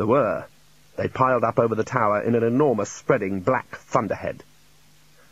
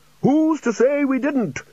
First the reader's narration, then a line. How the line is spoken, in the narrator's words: shouted Ridcully